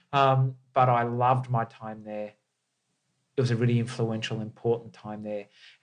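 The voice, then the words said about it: Australian accent. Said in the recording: “Don't don't don't be Australian ... an Australian”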